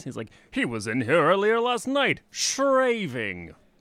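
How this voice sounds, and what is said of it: Cartoon character voice impression. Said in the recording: “Never miss a chance to do a Gaston voice.”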